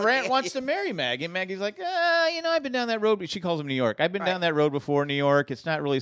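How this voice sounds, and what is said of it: Usual voice. Nothing is said of it.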